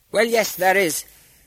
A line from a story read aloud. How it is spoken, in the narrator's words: cried a merchant